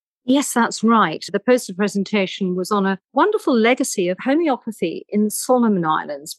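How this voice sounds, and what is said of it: British accent. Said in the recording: “your beautiful British accent”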